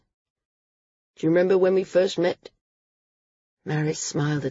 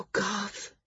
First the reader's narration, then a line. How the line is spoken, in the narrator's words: she whispered, fighting to hold back her own tears